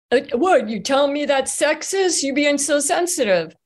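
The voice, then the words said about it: Put-on accent. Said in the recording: “I don't know why I'm putting on this accent, honestly.”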